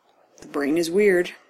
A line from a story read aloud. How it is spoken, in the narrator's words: Doug says